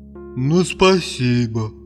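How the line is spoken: Sad sigh. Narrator (Russian): вздохнул печально Вахмурка

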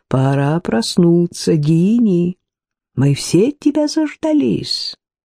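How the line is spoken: Dry forced laughter. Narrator (Russian): Тот же смех, какой-то сухой, будто человек смеялся вынужденно

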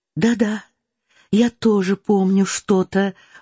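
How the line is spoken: Timid reply. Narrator (Russian): робко отвечала Соня

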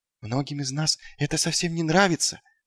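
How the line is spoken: Whisper. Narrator (Russian): прошептал он

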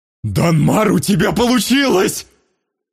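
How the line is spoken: Full-lunged yell. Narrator (Russian): Завопил Остал во всю мощь своих легких

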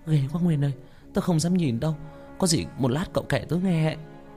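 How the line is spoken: Trembling, frightened. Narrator (Vietnamese): Như run rẩy

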